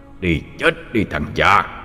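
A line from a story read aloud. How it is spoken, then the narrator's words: Snarling growl. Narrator (Vietnamese): Nó gầm gừ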